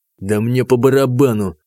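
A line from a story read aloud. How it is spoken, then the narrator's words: Through gritted teeth. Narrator (Russian): процедил танк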